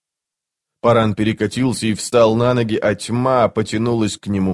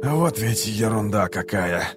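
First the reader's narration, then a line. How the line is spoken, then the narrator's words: Grumbling. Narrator (Russian): проворчал Кол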